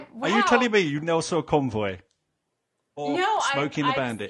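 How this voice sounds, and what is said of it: British accent. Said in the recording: “I don't think I've ever heard anyone with a British accent.”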